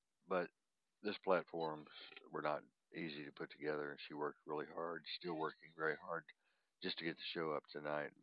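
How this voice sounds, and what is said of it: Slightly hoarse, congested voice. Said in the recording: “My voice is a little hoarse. I guess you all can tell I'm sounding like I've got a cold”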